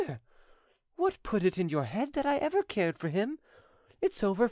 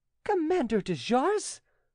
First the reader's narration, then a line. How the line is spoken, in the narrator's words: exclaimed Angelique